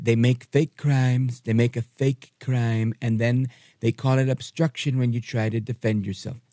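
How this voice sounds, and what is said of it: Donald Trump impression. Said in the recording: “that's not my best Trump impression”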